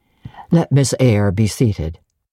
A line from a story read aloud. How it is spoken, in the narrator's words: said he ... in the impatient yet formal tone